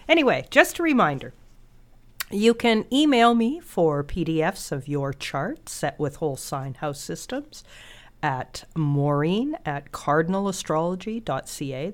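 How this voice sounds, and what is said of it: Nasal, congested voice from a cold. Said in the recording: “as you can tell from my wonderfully nasal voice, I have a cold”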